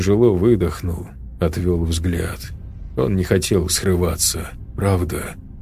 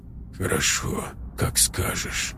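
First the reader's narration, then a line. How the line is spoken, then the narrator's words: Quiet. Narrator (Russian): тихо произнес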